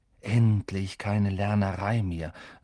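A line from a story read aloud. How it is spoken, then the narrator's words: Sighing. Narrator (German): seufzte Ron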